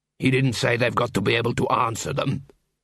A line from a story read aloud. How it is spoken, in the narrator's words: said Cuddy, grimly